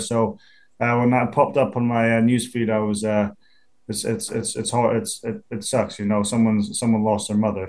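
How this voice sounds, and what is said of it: Non-American accent. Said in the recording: “One thing you haven't lost is that accent, though.”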